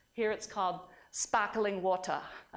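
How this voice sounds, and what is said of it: Poor Australian accent, sounds South African. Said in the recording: “My Australian accent really stinks. It's more South African, I think.”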